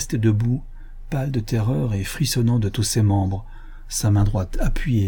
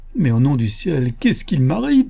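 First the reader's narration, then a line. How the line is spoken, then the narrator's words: Cry, almost weeping. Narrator (French): s'écria, presque pleurant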